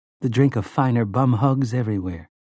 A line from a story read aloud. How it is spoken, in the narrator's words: Jake murmured